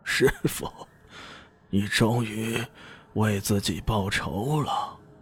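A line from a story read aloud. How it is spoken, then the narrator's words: Murmuring. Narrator (Chinese): 杜大师喃喃道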